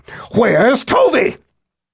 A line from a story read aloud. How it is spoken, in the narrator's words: Emmy screamed, begging that her daughter not be harmed